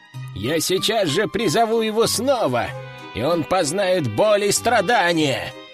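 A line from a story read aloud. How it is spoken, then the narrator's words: Growled. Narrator (Russian): прорычал он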